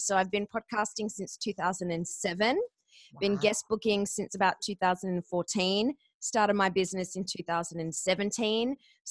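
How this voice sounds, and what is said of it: Australian accent. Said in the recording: “moved from Australia to the US ... could not get a job in radio with this accent”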